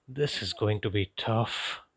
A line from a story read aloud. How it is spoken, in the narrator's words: groaned under my breath